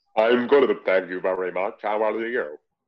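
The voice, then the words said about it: Robotic voice. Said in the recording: “I don't know how long I can keep up my robot voice for.”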